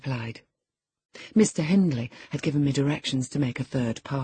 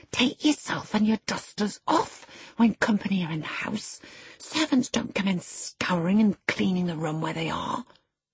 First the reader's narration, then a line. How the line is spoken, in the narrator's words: whispered crossly